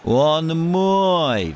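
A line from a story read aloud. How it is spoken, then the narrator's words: Shrieking in helpless rage. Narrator (Russian): в бессильной ярости завизжал Формазон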